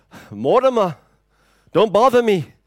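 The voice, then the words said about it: Put-on Jewish accent. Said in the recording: “That's my best attempt at a Jewish accent.”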